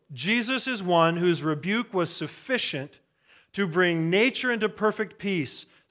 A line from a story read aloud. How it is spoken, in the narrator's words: says John Walvoord